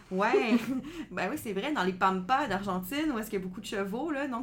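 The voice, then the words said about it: Québécois French accent. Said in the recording (French): “avec mon accent... Québécois”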